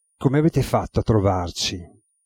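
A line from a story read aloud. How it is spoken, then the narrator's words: Irritated sighing question. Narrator (Italian): con un sospiro che tradiva irritazione, domandò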